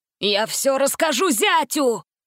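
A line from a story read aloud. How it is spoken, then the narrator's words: Angry shout. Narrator (Russian): закричал он на колдуна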